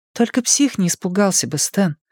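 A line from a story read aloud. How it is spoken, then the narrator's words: Soft, gentle. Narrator (Russian): мягко сказала Беверли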